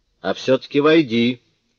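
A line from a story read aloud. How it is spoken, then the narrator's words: Father's shout. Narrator (Russian): крикнул отец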